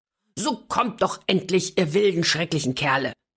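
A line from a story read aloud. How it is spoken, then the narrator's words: Seemingly angry call. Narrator (German): rief anscheinend zornig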